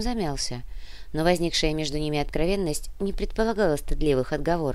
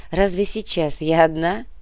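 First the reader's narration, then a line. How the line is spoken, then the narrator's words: Laughing. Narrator (Russian): рассмеялась Олеся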